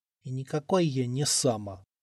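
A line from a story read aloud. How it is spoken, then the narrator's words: Sleepy offended mutter. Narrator (Russian): обиженно пробормотал он, засыпая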